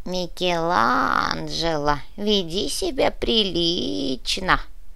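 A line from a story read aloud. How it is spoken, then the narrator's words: Creaky, disgusted. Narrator (Russian): брезгливо проскрипел Багейн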